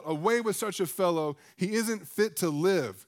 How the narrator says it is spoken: they all began to shout

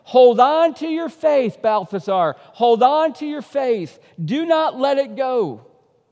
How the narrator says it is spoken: his wife could be heard shouting for him

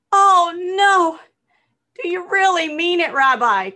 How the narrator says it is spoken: cried the man

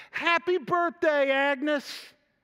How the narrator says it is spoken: we all screamed

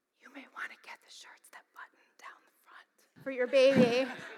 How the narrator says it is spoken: the instructor, who thought she was whispering to me, so no one heard, she said

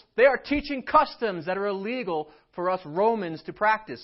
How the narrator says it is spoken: They shouted to the city officials

